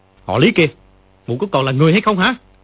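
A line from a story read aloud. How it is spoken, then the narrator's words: Furious shout. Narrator (Vietnamese): Dương Quá giận không để đâu cho hết, quát lên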